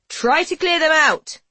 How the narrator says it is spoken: a servant shouts

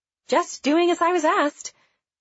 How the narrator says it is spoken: said cheerfully

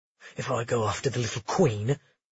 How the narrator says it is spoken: Kyan muttered

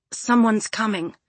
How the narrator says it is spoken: added Pisces in a choked voice

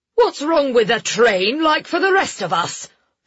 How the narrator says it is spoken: Lord Westrum snapped

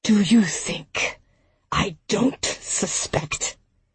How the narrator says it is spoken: Barnard's voice was little more than an animal growl

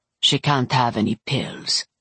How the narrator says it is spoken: Yevdokia said, her voice calm

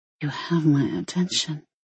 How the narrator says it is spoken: she whispered

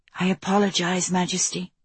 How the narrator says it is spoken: Andalai murmured quietly

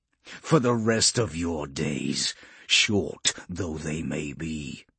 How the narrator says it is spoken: Polixis snarled, spittle flecking his lips

